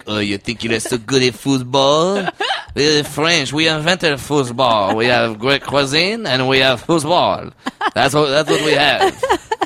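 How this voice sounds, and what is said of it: Arrogant French accent, Ratatouille villain. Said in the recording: “some really arrogant French guy ... Is this a good French accent? ... Is that the villain from Ratatouille? ... Yes, it is.”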